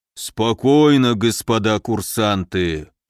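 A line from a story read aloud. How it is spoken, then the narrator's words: Bear's booming rumble. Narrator (Russian): прогудел медведь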